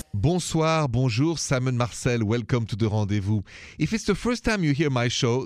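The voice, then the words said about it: French accent. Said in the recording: “the accent is French, straight from Paris”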